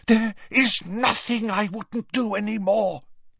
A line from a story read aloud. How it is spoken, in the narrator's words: Narcissa breathed, a note of hysteria in her voice